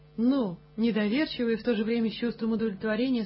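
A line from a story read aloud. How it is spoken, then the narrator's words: Plain. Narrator (Russian): сказал я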